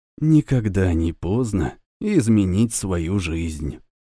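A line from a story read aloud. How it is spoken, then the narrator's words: Quiet. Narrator (Russian): тихо произнес Илья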